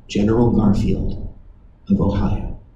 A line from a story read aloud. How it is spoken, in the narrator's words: The answer came in a low whisper